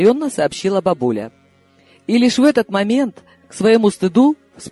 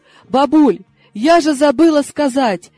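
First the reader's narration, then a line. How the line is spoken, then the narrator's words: Joyful yell. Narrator (Russian): Радостно завопила я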